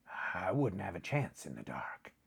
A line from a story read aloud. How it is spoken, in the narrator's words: he muttered